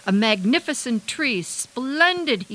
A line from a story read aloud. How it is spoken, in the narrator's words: he cried